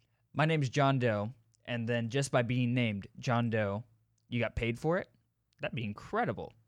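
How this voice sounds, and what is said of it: Usual voice. Nothing is said of it.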